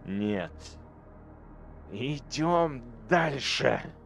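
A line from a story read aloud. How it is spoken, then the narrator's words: Growl. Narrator (Russian): прорычал он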